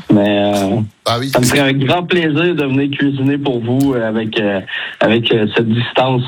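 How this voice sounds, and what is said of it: Québécois French accent. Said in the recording (French): “cet accent québécois ... Vous avez de la chance d'avoir cet accent”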